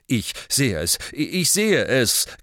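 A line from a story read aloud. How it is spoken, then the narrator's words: Hasty reply. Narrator (German): gab Ogden hastig zurück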